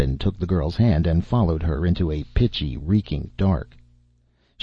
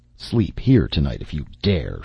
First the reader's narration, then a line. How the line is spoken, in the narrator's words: she growled